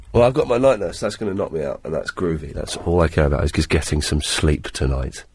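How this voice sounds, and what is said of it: Sick, congested-sounding voice. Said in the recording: “You sound terrible ... It's just a really bad cold.”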